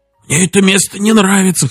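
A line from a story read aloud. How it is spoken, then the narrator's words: Hoarse whisper. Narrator (Russian): хрипло прошептал Хэнк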